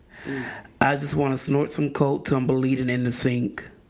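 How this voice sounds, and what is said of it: Imitates another person's voice. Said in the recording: “read it in my best Maya Angelou voice”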